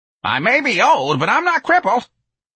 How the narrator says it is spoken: Miss Trixie said wildly

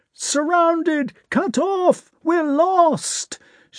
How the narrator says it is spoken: shouted the fugitives

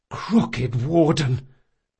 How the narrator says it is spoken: Locke gasped

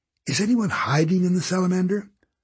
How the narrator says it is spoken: Constance snorted

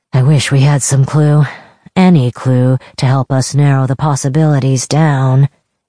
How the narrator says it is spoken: Kavik grumbled

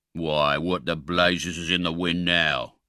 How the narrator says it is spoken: growled a deep voice

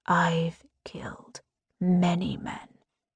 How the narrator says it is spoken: he whispers against me

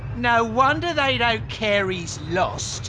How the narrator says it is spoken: sneered Picked Zit

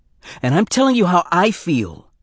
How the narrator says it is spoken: he almost shouted

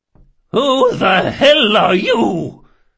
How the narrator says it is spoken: she bellowed, and for a moment that age-weakened voice rose to something like its old power

